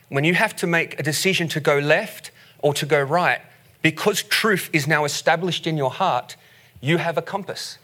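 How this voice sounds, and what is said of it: Australian accent. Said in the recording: “as you can hear from our accent straight up ... leave Australia”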